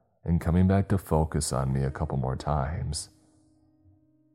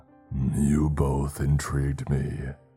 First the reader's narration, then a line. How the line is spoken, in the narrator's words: he said to Adam and me in a guttural tone